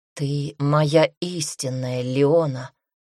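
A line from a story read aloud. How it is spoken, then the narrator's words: Slightly husky whisper. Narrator (Russian): шепчет он с легкой хрипотцой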